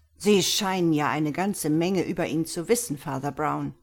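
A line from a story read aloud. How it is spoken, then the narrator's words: Sharp, curt. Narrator (German): stieß scharf hervor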